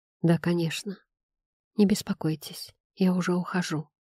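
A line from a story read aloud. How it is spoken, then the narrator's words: Mutter. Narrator (Russian): пробормотал я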